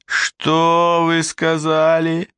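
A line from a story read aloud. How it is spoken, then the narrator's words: Drawled by sweaty dandy. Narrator (Russian): протянул потеющий модник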